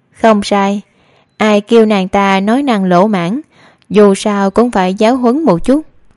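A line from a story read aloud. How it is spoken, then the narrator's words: Smiling. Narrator (Vietnamese): Cố Tuệ ... mỉm cười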